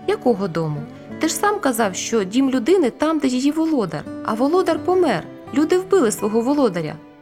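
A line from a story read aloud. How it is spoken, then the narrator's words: Exclaimed. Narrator (Ukrainian): вигукнула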